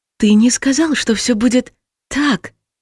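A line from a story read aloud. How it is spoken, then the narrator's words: Frightened accusation. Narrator (Russian): обвинила я и испуганно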